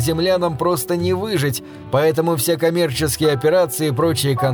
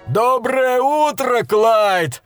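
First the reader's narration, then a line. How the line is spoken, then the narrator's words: Joyful distant shout. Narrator (Russian): радостно заорал он издалека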